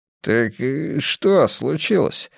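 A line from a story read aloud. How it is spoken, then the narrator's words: Speaking with forced smile. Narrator (Russian): сказал он, выдавив улыбку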